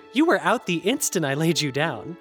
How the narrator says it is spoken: Zavi chuckled

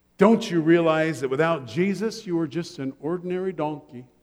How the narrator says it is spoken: she said gently

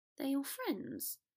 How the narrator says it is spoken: Theo said weakly

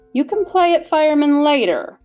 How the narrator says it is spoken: snapped the Lord Mayor

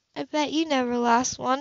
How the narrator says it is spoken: she muttered tearfully

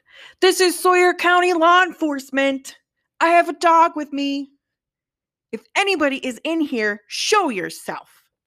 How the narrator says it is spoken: the officer shouted

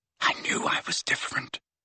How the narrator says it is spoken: he whispered

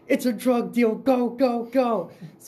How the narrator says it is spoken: I hear from the back seat, Connor yell

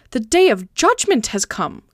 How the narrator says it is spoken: cried Candide

